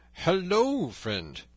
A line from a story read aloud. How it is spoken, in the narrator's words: cried Robin